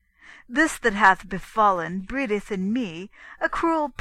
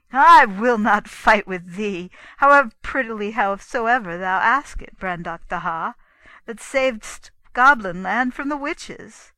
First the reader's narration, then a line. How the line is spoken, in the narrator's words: laughed, saying